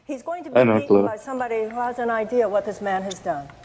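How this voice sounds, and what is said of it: Odd newsreader-like accent. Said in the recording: “What accent is this? ... It's like some weird, like, ... news speak dialect.”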